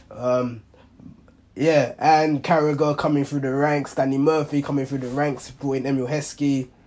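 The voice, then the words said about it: Hoarse, worn-out voice. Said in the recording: “apologies for that cough ... my voice is gone, so it's not COVID ... my voice is just gone”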